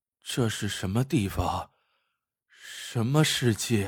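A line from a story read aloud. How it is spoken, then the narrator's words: Murmuring. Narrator (Chinese): 华建平喃喃的说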